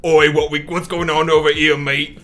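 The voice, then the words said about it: Poor attempt at Cockney-style accent. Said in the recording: “I don't know if it's Cockney, but like whatever accent ... That was absolutely terrible.”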